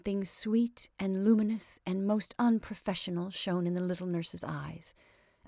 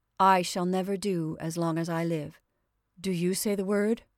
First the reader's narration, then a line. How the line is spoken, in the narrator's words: said Billy Grant solemnly